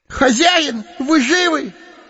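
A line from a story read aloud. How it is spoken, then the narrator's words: Shout. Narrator (Russian): крикнул Сэмми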